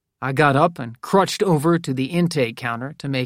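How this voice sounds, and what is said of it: Usual voice. Nothing is said of it.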